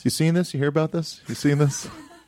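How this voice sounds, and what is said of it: Jay Leno impersonating Jonah Ray. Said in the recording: “Here's Jay Leno doing his impression ... Of Jonah Ray ... That's not even a good Jonah Ray”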